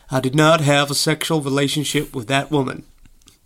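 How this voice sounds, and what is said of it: Bill Clinton impression. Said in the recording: “my Bill Clinton impression”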